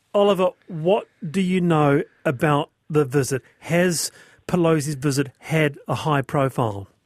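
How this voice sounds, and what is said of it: New Zealand accent. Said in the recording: “Good to hear a Kiwi accent again.”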